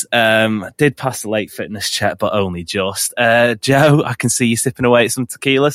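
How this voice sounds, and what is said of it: Voice affected by a cold. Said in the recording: “As you can probably tell, listeners as well, struggling with a little bit of a cold. So excuse my voice.”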